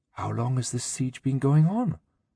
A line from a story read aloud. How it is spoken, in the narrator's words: Kalila whispered